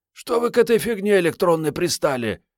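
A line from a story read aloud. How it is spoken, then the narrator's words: Hoarse voice. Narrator (Russian): подала хрипатый голос Мариетта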